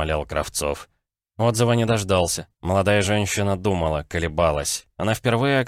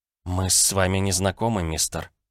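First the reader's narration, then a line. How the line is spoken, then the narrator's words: Muttered. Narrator (Russian): пробормотала миссис Кларк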